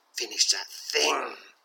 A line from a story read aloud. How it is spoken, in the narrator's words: snares, his voice barely above a whisper